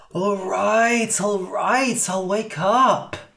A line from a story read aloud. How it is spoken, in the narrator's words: groaned Cass